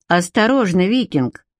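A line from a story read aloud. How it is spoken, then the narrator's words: Young woman, cold warning. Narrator (Russian): холодно предупредила девушка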